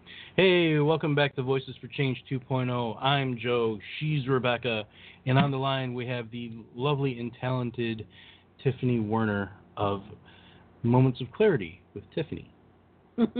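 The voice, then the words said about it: Smooth announcer radio voice. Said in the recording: “That was my radio voice. ... I could hear you doing a voiceover for, like, a sexy perfume or cologne commercial.”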